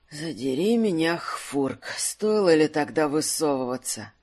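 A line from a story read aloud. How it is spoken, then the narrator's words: Pained groaning croak. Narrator (Russian): раненый маг застонал и с болью проскрипел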